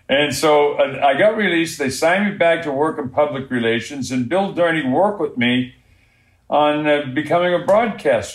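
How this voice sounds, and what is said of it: Distinct Boston accent. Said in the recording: “I have a very distinct accent. ... It's a Boston accent, which is very similar to an Australian accent.”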